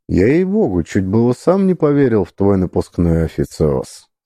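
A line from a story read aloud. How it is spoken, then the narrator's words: Calm, casual tone. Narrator (Russian): сказал настолько спокойно и буднично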